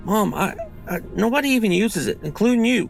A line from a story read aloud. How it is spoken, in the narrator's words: said, my voice quaking